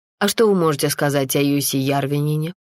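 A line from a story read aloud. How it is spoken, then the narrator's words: Plain. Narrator (Russian): спросил Рауна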